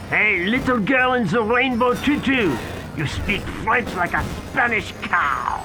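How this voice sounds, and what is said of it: Unconvincing put-on French accent. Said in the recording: “the French accent was not convincing”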